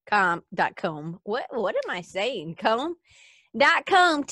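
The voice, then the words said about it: Put-on Southern American accent. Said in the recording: “I don't know why I have to do that with a Southern accent.”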